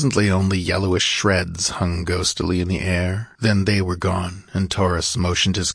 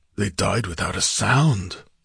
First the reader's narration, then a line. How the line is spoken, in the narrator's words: muttered the Cimmerian